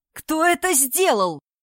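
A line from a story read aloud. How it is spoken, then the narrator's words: Repeated shouting. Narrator (Russian): уже кричал он, повторяя свой вопрос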